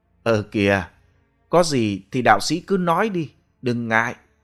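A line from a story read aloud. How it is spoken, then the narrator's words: Urging. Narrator (Vietnamese): Lưu Tú nhìn thấy vị đạo sĩ ngập ngừng, chàng hối thúc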